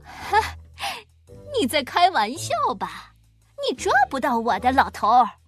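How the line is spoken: Mocking taunt. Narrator (Chinese): 这个小偷嘲笑

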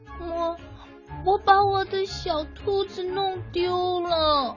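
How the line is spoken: Sobbing. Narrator (Chinese): 艾米丽 抽泣着说

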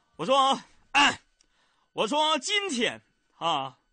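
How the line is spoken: Excited shouting. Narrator (Chinese): 当时我非常激动，我就大喊

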